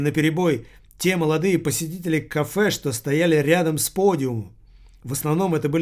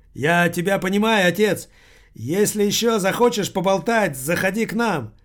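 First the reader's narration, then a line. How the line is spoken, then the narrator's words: Young man shouting. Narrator (Russian): один прекрасный юноша крикнул Таборскому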